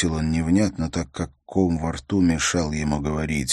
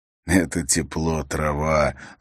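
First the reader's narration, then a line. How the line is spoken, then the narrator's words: Laughing. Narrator (Russian): засмеялся Хандаль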